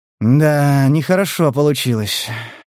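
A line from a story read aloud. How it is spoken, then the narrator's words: Sighing. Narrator (Russian): вздохнул Стас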